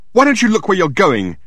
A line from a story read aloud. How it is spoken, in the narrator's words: she yelled at him